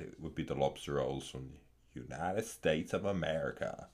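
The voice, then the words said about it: British speaker's put-on American Southern accent. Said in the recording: “That's the best, worst accent I could do. ... pretty good coming from a Brit ... all Brits sound like they're from the South of America ... the South of the United States of America”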